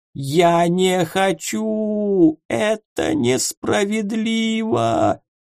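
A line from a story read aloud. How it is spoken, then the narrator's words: Whimpering. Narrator (Russian): хныкал он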